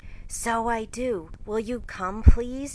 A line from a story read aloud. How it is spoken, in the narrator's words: cried Lori